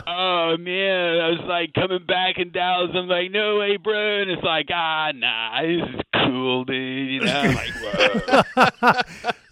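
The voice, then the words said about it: Put-on Californian surfer accent. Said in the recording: “you sounding like a Californian ... You've already gone full-blown Californian”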